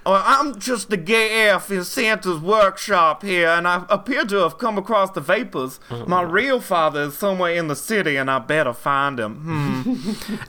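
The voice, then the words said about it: Camp Southern belle character voice. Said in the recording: “his inexplicable Cajun voice ... an offensive gay voice, is doing the Southern gay voice, the Southern belle ... Gilbert from King of the Hill voice”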